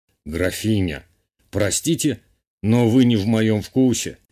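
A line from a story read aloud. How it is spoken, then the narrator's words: Amused snort. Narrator (Russian): хмыкнул герцог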